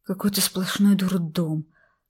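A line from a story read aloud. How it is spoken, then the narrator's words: Groaning. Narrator (Russian): простонал Шувалов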